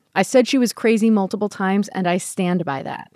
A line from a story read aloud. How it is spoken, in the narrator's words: he said